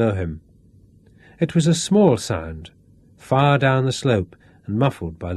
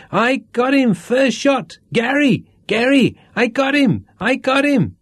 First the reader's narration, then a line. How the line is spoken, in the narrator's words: Tinker came pelting out of the bush, and still screaming